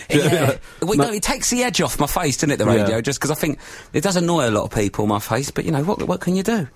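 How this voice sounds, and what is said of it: Speaks with a regional accent. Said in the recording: “it's an accent, isn't it? I do say words wrong, but it's a colloquialism”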